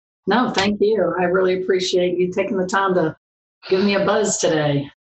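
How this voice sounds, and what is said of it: Southern American accent. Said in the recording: “You've got that Florida accent down to a T. ... Actually, it's more southern than Florida”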